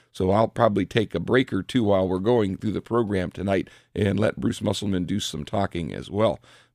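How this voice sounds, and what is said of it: Raspy voice. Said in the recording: “my voice is a little raspy. ... I can feel it getting a little raspier as I talk.”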